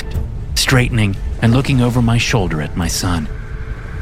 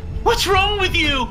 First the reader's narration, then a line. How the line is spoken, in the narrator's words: he screamed